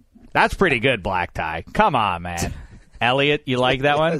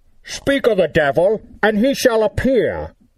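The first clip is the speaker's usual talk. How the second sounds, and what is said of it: Imitates a movie villain's voice. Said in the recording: “I do a great Bane impression. And, I'd like to think it's pretty good ... I'm going to try it out right now”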